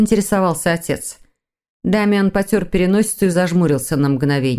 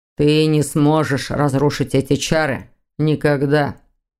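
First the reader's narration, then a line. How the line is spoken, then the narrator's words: Cold statement. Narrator (Russian): холодно сообщил Виктор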